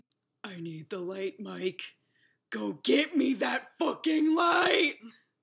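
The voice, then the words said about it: Tired, old, angry voice. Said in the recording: “her voice was different ... It was tired, old, and angry.”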